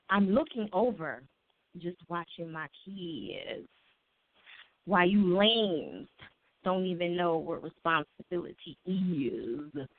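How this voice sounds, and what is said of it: Put-on white girl voice. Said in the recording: “I'm going to say it in my white girl's voice ... In my girl's voice, which is kind of like my own.”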